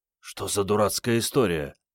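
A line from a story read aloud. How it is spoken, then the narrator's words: Whispered. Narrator (Russian): прошептал Генка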